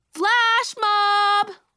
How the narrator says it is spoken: Someone yelled

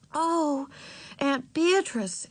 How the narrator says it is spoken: exclaimed Beezus

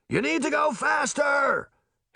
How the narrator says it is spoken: Henry shouted over the wind that beat against everyone's faces

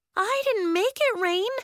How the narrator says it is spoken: Willa exclaimed

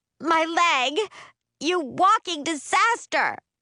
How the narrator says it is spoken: her screaming

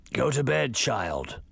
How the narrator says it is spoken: a voice growled

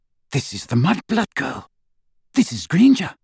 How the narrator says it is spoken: she said quietly

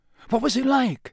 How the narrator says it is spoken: said Harry eagerly

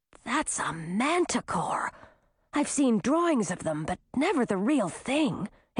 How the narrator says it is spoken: Heywood whispered to Grisina

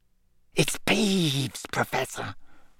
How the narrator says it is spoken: Filch whispered malevolently

